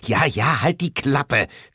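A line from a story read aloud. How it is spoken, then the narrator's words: Hissed. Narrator (German): zischte Lilith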